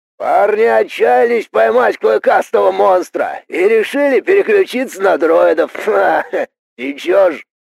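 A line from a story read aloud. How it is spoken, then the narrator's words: Cheerful distant crocodile shout. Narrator (Russian): Весело крикнул крокодил, но его голос звучал отдаленно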